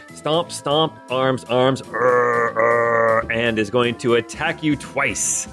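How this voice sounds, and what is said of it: Frankenstein monster impression. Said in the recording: “best Frankenstein impression”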